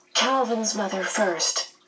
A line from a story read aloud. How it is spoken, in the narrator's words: Meg whispered